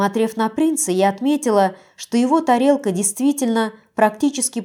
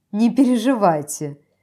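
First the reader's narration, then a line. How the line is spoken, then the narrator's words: Laughing. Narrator (Russian): рассмеялась императрица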